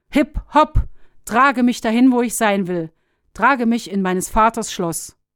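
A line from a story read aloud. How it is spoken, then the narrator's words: Calling out. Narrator (German): rief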